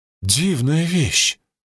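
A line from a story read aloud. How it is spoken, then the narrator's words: Exclamation. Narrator (Russian): воскликнул он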